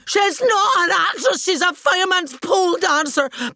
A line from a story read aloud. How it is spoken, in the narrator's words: screaming